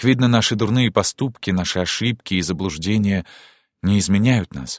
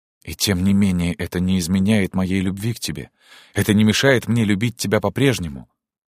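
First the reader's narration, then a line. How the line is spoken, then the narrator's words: Gentle male voice. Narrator (Russian): мягко сказал принц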